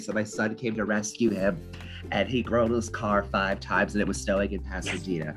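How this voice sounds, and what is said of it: Imitates another person's voice. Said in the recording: “That was a good impression too”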